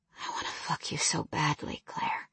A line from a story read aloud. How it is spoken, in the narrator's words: he whispered